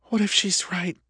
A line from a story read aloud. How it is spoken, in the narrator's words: Lori whispered into the silence